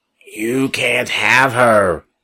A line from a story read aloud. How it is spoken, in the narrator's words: Gunther growled, but there was fear in his voice and uncertainty too